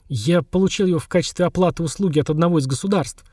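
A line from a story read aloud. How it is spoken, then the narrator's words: Quiet confession. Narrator (Russian): негромко признался наместник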